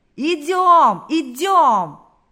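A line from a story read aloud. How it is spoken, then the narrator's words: Crowd shouting. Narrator (Russian): закричали все, кто еще держался на ногах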